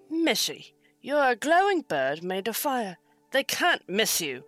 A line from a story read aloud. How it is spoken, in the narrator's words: El grumbled